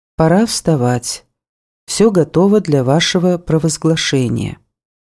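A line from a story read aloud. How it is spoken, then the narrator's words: Completely calm voice. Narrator (Russian): Алексеем Орловым, который сказал совершенно спокойным голосом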